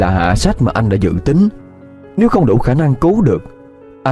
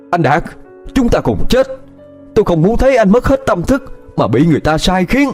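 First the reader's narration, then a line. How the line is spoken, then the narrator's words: Shouting while charging. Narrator (Vietnamese): vừa lao nhanh tới Đạt vừa hét lớn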